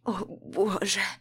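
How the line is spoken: Hoarse. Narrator (Russian): Хриплю

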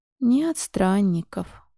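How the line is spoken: Sigh. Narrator (Russian): вздохнул

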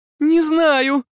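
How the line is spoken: Shrill squeal. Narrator (Russian): взвизгнула Эмили в ответ

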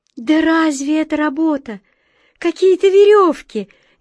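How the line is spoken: Heated exclamation. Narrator (Russian): горячо воскликнула белка

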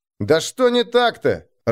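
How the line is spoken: Annoyed shout. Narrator (Russian): раздосадованно крикнул Нежата

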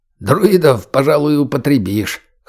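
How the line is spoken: Short chuckle. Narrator (Russian): хохотнул путеец

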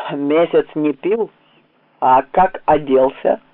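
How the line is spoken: Preachy droning. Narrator (Russian): наставительно прогудел голубка

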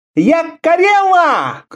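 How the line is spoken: Shouted. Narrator (Russian): крикнула

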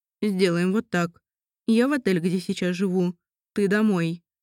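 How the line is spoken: Plain. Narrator (Russian): сказал он

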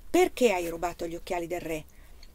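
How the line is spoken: Reproachful question. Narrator (Italian): chiese Anna con tono di rimprovero

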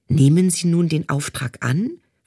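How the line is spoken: Plain question. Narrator (German): fragte der Chief

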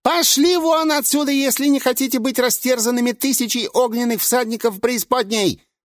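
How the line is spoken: Shrill, eerie voice. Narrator (Russian): Визгливо ответил то ли сам глаз, то ли его незримый хозяин

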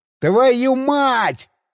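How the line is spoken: Panicked yell. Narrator (Russian): заорал я, обнаружив, что руль завращался без всякого результата, а большую машину начало закручивать

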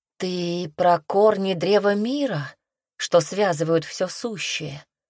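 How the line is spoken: Tentative guess. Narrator (Russian): высказала она последнюю догадку

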